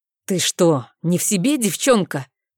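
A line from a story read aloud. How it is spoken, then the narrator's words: Displeased, through teeth. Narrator (Russian): Процедил недовольно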